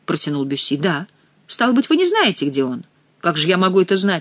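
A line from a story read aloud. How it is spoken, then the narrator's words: Plain. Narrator (Russian): ответил молодой человек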